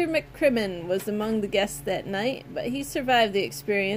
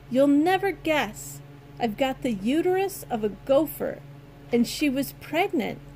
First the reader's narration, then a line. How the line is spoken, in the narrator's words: cried